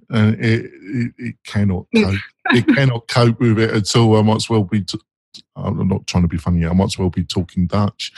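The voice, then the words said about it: Strong North London accent. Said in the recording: “I've got a strong North London accent”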